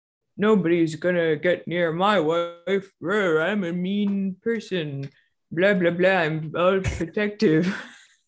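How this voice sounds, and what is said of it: Mock voice of a stereotypical Republican. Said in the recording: “that's a great impression. ... Perfect. ... that's how Republicans that's so sound.”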